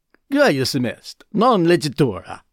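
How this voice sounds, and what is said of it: Exaggerated bad Italian accent. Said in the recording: “pretty stereotype, bad Italian accent”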